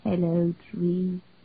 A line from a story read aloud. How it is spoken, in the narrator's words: Jean murmured to it